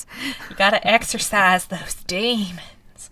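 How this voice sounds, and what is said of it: Southern cartoon character voice. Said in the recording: “not making fun of anybody from the South... I'm doing the voice of a character from Gravity Falls”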